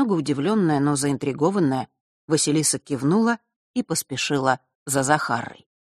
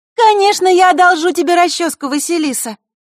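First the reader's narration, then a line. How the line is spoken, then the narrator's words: Unexpectedly loud. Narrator (Russian): неожиданно громко произнесла подруга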